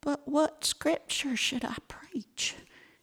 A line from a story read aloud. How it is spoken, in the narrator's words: asked Molly in a quavering voice